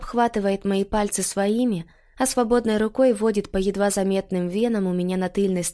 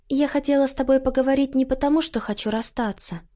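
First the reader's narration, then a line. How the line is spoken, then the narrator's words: Soft, gentle. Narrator (Russian): говорю я мягко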